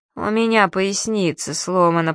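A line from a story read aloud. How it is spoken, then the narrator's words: Old woman's toothless mumble. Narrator (Russian): прошамкала старуха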